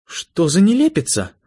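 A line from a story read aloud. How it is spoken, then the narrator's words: Tearful exclamation. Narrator (Russian): воскликнула официантка плачущим голосом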